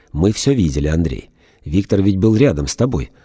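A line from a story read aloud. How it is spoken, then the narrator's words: Rather stern. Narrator (Russian): Она довольно строго сказала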